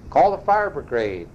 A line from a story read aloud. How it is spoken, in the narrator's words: cried Mrs